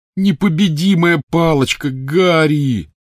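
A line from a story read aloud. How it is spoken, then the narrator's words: Groaning. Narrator (Russian): застонал Рон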